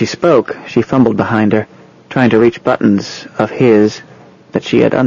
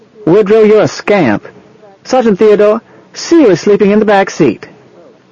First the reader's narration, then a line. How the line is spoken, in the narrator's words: she said loudly and happily